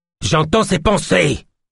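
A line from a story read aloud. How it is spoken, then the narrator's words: Loud voice over engine. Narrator (French): continua Yosp d'une voix forte pour dominer le grondement du moteur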